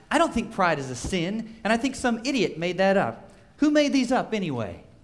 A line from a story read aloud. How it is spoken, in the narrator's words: Actress Kirstie Alley snapped